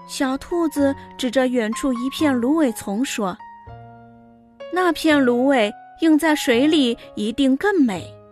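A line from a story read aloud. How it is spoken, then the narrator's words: Admiring. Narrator (Chinese): 刺猬赞叹说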